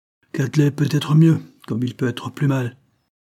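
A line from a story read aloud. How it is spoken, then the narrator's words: Curt ungracious reply. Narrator (French): répondit sèchement, et d'un air peu gracieux M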